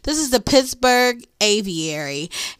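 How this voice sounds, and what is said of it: Pittsburgh accent. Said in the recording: “listen to me using my Pittsburgh accent... people in Pittsburgh always say P-I-X instead of P-I-T-T”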